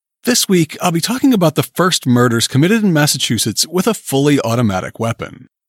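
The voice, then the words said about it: Voice sounding a bit sick. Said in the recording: “I'm fighting off a cold this week, so please excuse my voice if it's not quite up to snuff.”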